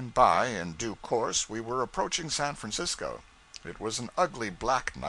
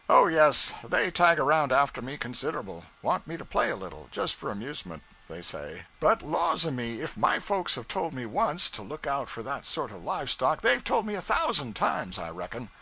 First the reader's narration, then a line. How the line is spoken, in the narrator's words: He chuckled comfortably and said